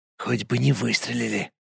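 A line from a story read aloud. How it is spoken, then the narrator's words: Whispered. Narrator (Russian): шепотом сказал волк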